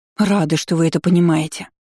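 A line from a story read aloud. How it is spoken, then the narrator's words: Relieved exhale. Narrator (Russian): облегченно выдохнула Люсьена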